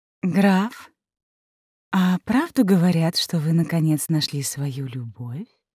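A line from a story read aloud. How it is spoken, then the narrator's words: Innocent cooing. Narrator (Russian): Невинно проворковало Ее Величество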